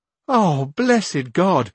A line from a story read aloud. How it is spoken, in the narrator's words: exclaimed Sancho aloud